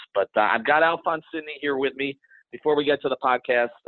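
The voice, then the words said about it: Scratchy hoarse voice. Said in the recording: “my voice is scratchy and it's going to be a mess”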